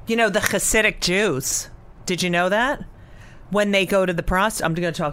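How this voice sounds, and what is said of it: Usual voice. Nothing is said of it.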